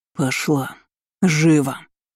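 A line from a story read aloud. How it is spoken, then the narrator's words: Savage growl. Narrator (Russian): рычал озверевший министр финансов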